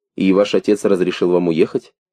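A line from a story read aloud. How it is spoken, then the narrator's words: Plain. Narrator (Russian): спросила она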